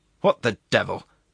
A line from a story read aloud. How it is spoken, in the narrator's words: grumbled the Acting Justice